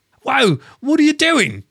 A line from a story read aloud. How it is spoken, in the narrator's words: cried